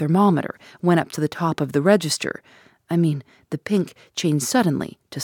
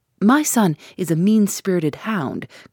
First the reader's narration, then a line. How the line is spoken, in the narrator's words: cried this furious old worldling